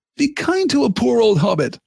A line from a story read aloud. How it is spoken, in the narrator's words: laughed Frodo